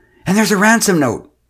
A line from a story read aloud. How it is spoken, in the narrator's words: wailed